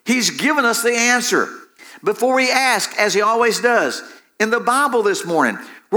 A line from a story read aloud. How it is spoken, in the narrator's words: Betsy then explained excitedly